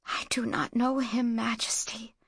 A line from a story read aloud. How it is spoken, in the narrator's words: she whispered